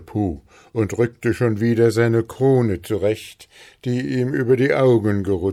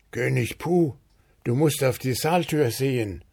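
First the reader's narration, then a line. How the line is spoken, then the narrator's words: Low murmur. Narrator (German): raunte Regisseur Wuschel ihm zu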